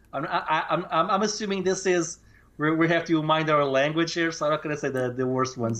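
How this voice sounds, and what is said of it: Portuguese accent. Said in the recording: “I always thought your accent was really charming ... your Portuguese accent”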